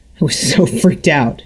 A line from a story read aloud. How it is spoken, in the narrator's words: said, laughing